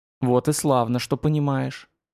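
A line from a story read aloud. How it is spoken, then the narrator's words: Quiet woman's voice. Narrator (Russian): тихо промолвила супруга молодого шамана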